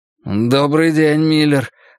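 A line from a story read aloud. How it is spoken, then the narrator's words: Said in confusion. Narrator (Russian): растерянно произнес Джерри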